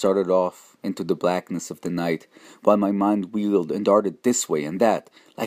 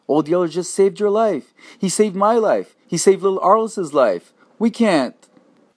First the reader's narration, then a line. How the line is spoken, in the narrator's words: I cried out